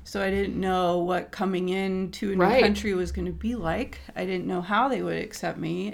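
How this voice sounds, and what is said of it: American accent. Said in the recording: “They heard my accent... oh, you're American”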